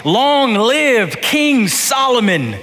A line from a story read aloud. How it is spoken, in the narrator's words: all the people shouted